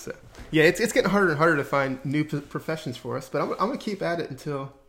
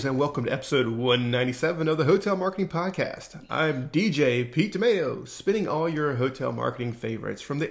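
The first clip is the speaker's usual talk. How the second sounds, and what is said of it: DJ-style radio announcer voice. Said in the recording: “I love your radio voice. That's so good”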